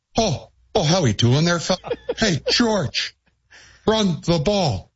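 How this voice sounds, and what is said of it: Imitates another person's accent. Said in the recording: “A great accent.”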